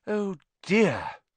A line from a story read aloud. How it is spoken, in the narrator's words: said Hermione sadly